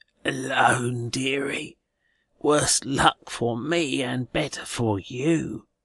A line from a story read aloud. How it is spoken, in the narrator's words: replies a croaking voice